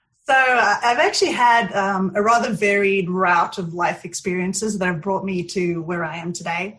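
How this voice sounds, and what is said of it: South African accent. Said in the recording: “You have a great accent. ... It comes and goes. Sometimes it's American, sometimes it's South African.”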